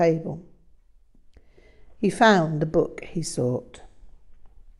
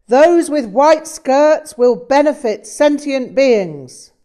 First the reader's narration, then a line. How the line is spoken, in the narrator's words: suddenly he shouted